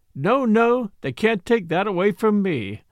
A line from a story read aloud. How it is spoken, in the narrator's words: sang it